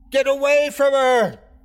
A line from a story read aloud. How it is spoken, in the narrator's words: I screamed